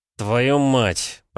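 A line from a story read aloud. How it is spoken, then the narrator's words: Groaning. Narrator (Russian): простонал Петя, вспомнив, что сегодня у него еще тренировка в вымпеле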